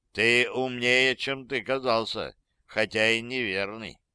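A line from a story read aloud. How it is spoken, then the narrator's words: Calm remark. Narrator (Russian): спокойно заметил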